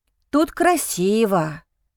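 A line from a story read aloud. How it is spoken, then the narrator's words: Said with a sigh. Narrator (Russian): произносит он, вздохнув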